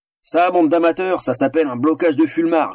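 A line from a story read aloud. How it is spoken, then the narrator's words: Torturer's contemptuous sneer. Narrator (French): ricana le tortionnaire avec mépris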